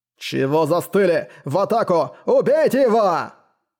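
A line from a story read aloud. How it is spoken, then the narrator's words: Panicked, strained shout. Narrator (Russian): Не своим голосом закричал бледный маркиз Лу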